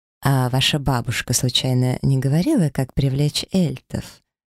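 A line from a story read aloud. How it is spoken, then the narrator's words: Quiet inquiry. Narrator (Russian): поинтересовалась тихо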